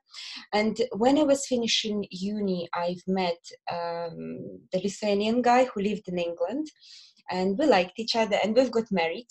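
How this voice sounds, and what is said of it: Belarusian accent in English. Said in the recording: “as you probably can hear from my accent, I'm not originally from England. I'm from Belarus.”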